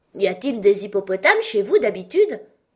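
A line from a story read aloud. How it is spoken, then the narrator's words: Surprised question. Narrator (French): demanda Alice d'un ton surpris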